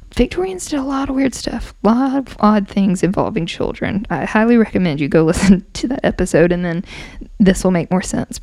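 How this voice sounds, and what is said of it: Strained, hoarse voice giving out. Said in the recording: “now I'm losing my voice.”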